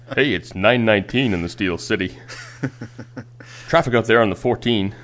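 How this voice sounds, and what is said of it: Exaggerated radio announcer voice. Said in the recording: “step up my radio voice and really sell it”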